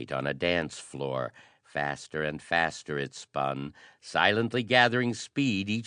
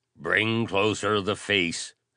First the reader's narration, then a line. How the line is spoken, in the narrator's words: snapped Hero Giles gruffly